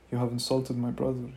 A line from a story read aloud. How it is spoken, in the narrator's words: said